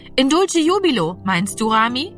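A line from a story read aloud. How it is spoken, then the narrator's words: Called out. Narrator (German): rief Annegret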